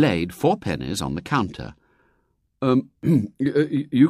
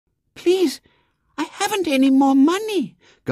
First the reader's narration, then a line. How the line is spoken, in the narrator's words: gasped a small, bewildered voice